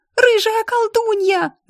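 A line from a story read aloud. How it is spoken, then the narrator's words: Children shrieking. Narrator (Russian): завизжали дети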